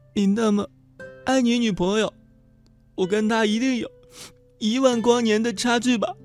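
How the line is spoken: Sobbing. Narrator (Chinese): 学妹抽泣着

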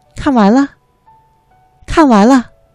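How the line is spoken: Crisp children's voices. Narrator (Chinese): 孩子们的声音很清脆

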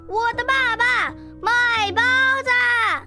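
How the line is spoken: Loud. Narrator (Chinese): 我大声地说

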